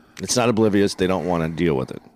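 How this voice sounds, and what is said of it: Paul Mooney impression. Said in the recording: “answer in your Paul Mooney voice.”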